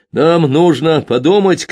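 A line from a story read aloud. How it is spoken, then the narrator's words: Shouting. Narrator (Russian): крикнул он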